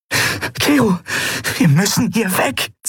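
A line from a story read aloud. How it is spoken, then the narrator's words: Hissing. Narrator (German): zischte sie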